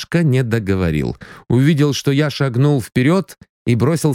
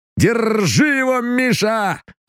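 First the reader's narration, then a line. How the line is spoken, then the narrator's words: Excited shout. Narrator (Russian): азартно крикнул Саратовцев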